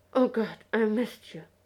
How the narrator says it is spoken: he sighed into Yanto's shoulder

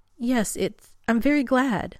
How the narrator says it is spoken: Rodney blurts

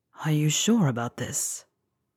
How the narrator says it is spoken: When they part for breath, Draco whispers

